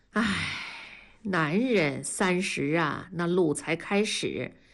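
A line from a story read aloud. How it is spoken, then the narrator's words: Sighing. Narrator (Chinese): 文丽叹了口气说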